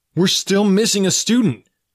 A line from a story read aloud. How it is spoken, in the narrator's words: yelled over the alarm